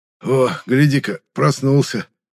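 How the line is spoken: Hoarse greeting. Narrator (Russian): хрипло поприветствовал меня белобрысый Витя

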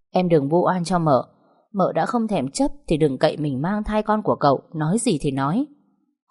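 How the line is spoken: Forced calm, scornful. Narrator (Vietnamese): dường như chị đang cố bình tĩnh cười nhạt

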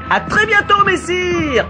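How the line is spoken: Shouted while galloping away. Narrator (French): cria le maître voleur en s'enfuyant au galop

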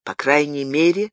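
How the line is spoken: Young man sighing. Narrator (Russian): вздохнул молодой человек

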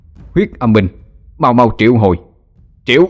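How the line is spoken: Mournful ghostly wailing. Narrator (Vietnamese): Tiếng gào thét thê lương của lũ ma quỷ

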